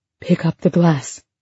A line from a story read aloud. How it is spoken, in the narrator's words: she said in a harsh and hushed voice